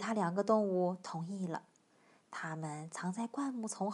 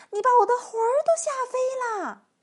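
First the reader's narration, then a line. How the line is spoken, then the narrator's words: Old woman shouting. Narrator (Chinese): 瘦小的老妇人喊起来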